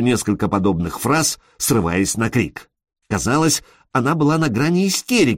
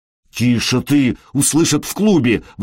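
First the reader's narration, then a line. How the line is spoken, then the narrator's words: Exclaiming. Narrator (Russian): воскликнул он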